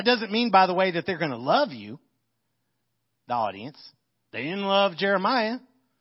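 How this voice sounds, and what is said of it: American country accent. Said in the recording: “My country accent”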